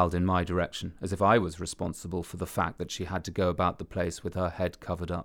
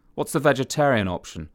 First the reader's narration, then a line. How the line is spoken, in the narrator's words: asked dryly